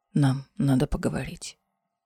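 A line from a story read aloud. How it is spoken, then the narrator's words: Hoarse breathy exhale. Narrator (Russian): хрипло выдохнул Ларкан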